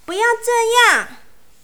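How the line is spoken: Screaming. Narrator (Chinese): 我尖叫着

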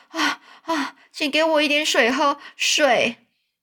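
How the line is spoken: Breathless, panting. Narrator (Chinese): 他气喘吁吁的说

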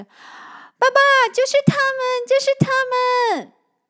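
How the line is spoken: Excited child shouting. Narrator (Chinese): 小光 他兴奋地 叫着

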